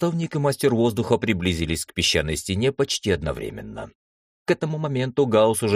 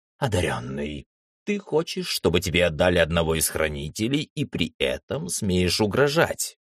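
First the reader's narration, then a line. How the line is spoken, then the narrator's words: Calm, unreadable voice. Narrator (Russian): Наставник говорил спокойно, и по его голосу невозможно было понять, какие чувства он испытывает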